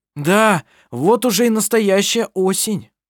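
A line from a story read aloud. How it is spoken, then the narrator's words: Shouting. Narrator (Russian): прокричал он ей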